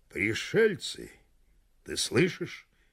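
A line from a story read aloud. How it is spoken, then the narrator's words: Quiet. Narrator (Russian): тихо сказал Гекала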